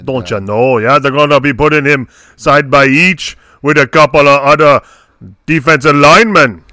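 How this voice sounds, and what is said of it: Attempted French Canadian accent. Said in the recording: “I don't know what that accent is. I was trying to go French Canadian there. I don't think I accomplished that.”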